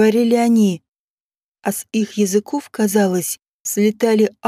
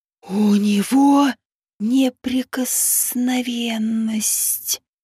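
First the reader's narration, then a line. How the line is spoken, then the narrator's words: Surprised hiss, small snake. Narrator (Russian): удивленно прошипел самый мелкий змей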